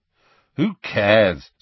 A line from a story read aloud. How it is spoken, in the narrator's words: said Ron irritably